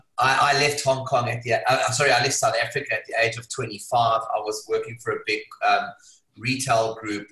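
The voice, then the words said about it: South African accent. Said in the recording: “I was born in South Africa. If you can't tell from the accent, it's a bit of a giveaway.”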